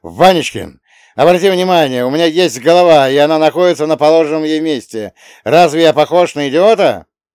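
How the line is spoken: Yelling. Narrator (Russian): Он не говорил, а орал

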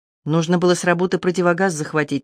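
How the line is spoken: Quiet. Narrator (Russian): негромко сказала она

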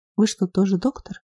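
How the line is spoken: Quiet woman's voice. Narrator (Russian): негромко произнесла брюнетка

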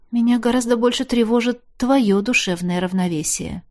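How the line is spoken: Quiet shy confession. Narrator (Russian): тихонько призналась я

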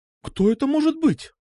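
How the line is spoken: Mother's surprised exclamation. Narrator (Russian): удивленно воскликнула мама

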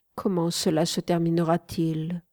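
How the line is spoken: Sad, after a pause. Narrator (French): demandai-je tristement après une petite pause

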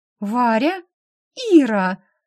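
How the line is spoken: Two women exclaiming together. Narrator (Russian): воскликнув это одновременно, две дамы

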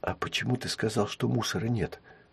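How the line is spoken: Whispered question. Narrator (Russian): шепотом спросила Рина у Триша

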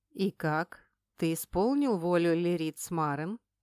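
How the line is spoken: Cold question. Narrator (Russian): холодно поинтересовался у него Айдар

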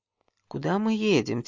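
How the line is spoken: Quiet question, breaking silence. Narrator (Russian): тихо спросила я, не в силах больше молчать

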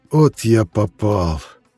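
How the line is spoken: Breathed out. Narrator (Russian): выдохнул он

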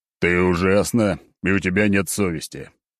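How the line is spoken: Grumbling. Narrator (Russian): ворчал я

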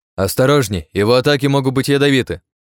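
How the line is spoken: Shouted warning. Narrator (Russian): крикнул всем Артём

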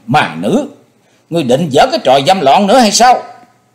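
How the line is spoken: Shouting. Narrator (Vietnamese): chàng hét lên

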